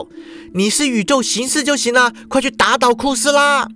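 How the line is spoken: Fierce shout. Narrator (Chinese): 淑华瞪着双眼叫道

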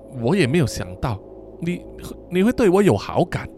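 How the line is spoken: Sighing. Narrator (Chinese): 温斯顿摇摇头，叹了一口气说

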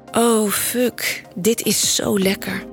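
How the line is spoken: Soft moan. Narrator (Dutch): kreun ik zacht

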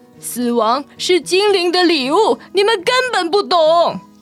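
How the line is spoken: Stubborn loud shout. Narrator (Chinese): 丑老他固执的高喊

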